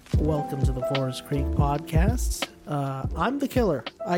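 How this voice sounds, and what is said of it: Usual voice. Nothing is said of it.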